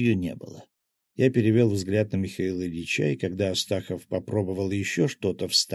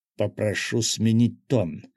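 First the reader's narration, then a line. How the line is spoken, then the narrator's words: Growl. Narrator (Russian): рыкнул я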